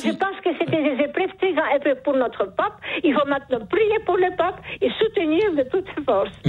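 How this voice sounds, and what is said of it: Charming accent. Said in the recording (French): “Vous avez un charmant accent ... ce joli accent”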